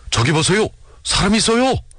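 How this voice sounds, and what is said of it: Excited shouting voice. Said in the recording (Korean): “누군가 들뜬 목소리로 소리를 지었다.”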